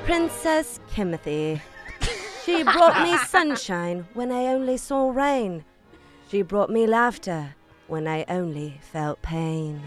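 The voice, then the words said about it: Put-on British accent. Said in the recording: “Can you do it in a British accent”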